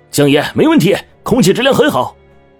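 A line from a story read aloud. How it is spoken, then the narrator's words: Two young men shouting. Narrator (Chinese): 两个小伙率先喊道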